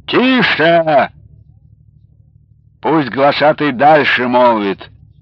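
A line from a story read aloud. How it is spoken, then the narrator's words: Weighty shout. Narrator (Russian): донской атаман веско выкрикнул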